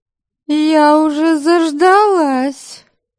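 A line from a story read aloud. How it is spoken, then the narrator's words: Displeased drawl. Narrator (Russian): Недовольным тоном протянула она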